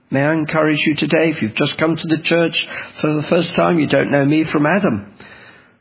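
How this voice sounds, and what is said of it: Speaker with a noticeable accent. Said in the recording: “what is this chap with an accent? ... you're the ones with the accent”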